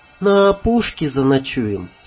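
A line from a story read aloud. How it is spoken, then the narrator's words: Tired question. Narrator (Russian): спросила Танюшка устало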